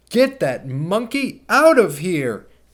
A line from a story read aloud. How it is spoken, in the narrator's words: she yelled